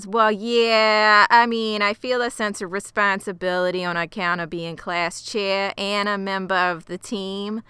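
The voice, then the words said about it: Put-on New Jersey accent. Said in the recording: “sounding exactly like Fran Drescher from The Nanny ... New Jersey accent”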